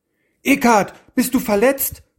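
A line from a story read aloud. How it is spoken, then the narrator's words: Worried calling out. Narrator (German): rief Floff voller Sorge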